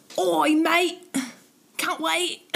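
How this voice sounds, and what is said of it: Put-on accent that sounds Australian. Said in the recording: “That was Australian. ... Accents are hard.”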